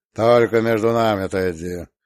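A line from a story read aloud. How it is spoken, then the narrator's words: Muffled low voice. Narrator (Russian): глухо молвил он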